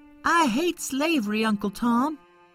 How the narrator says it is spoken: cried Johnny

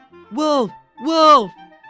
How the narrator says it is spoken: The boy again cried out, even louder than before

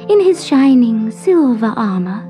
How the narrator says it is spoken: said the forget-me-not wistfully

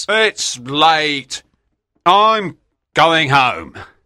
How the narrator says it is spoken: Smith … shouts

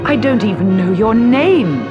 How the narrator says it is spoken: he cried

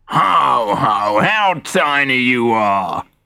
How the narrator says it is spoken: Gruff Puff would jeer

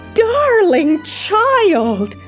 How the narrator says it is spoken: Aunt Em cried

